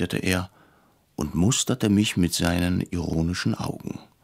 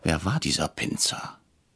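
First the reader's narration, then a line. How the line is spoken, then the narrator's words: Whispered. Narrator (German): flüsterte ich Herrn Brecher zu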